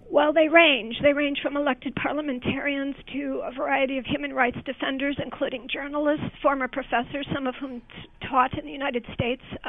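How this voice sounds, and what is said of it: Hoarse, laryngitis-affected voice. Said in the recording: “You have a case of laryngitis? ... A little bit, sorry.”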